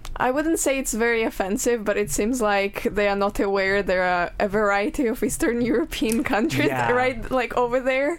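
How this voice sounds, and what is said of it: Distinctive Eastern European accent. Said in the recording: “Are you Russian? ... I know our accent is pretty distinctive.”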